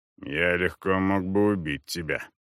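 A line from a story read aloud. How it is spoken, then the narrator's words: Grumbled. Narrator (Russian): проворчал Коза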